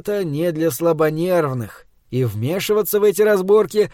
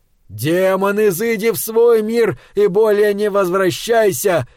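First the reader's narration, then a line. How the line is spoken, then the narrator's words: Yelled at full strength. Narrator (Russian): заорал, что было мочи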